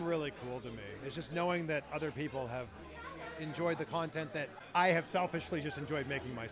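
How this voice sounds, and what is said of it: Usual voice. Nothing is said of it.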